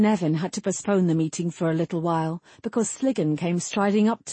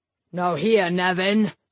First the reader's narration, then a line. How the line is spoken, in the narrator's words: Sliggan bellowed